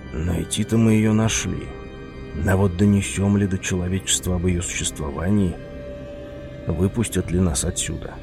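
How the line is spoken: Muttered whisper. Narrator (Russian): прошептал себе под нос

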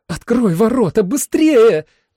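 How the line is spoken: Pleading. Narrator (Russian): взмолилась Джули

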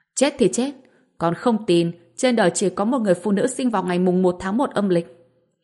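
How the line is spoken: Angry shout. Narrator (Vietnamese): Vương Gia Tuấn giận dữ hét lên

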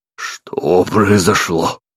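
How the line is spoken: Hoarse dazed exhale. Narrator (Russian): хрипло выдохнул пришедший в себя Бран

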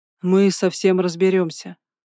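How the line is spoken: Calm. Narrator (Russian): сказал он спокойно

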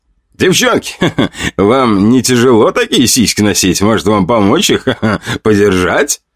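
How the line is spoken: Mocking guffaw. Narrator (Russian): хохотал боец, стоявший на воротах

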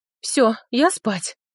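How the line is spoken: Exhaled. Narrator (Russian): выдохнул он

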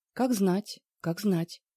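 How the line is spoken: Soft chuckle. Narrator (Russian): мягко усмехнулся Мон

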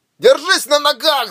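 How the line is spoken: Yelling. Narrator (Russian): заорал он

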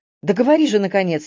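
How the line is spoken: Impatient exclamation. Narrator (Russian): нетерпеливо воскликнула Магдалена

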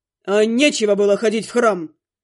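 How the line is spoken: Growl. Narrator (Russian): рыкнул Глун

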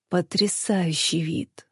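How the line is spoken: Feverish whisper. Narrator (Russian): шептал лихорадочно

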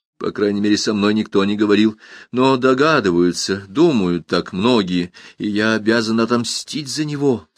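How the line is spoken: Gloomy, heated boyish cry. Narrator (Russian): вскричал он мрачно, горячо и по-мальчишески

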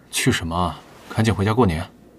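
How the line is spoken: Low voice, after a pause. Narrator (Chinese): 李寻顿了顿，低声说

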